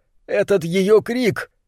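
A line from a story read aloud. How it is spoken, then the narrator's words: Sobbing. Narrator (Russian): Немрод продолжал рыдать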